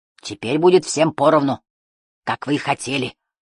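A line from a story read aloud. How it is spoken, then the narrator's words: Growled. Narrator (Russian): прорычал Икабод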